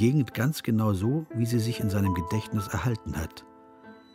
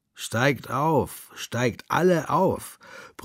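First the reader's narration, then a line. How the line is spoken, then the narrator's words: Young man bellowing. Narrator (German): brüllt einer von ihnen, ein noch junger Bursche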